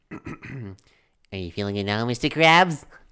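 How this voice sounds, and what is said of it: SpongeBob cartoon character voice. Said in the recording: “my SpongeBob impression ... going to do his SpongeBob impression”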